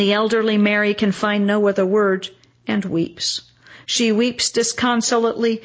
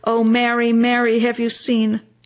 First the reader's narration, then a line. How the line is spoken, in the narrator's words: she moans